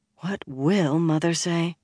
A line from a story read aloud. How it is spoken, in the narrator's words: drew a deep breath and murmured